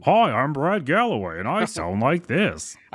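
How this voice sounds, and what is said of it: Imitates another person's voice. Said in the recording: “That's a really good impression. In fact, I thought I was talking for a minute... I hear my voice, but my mouth's not open... character voice... It sounds like I'm Brad Galloway.”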